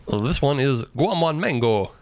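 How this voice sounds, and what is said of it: Put-on Jamaican accent. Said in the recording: “Jamaican accent?... Jamaican accent.”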